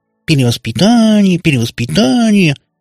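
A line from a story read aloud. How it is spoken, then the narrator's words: Nasal mocking imitation. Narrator (Russian): гнусаве передразнила она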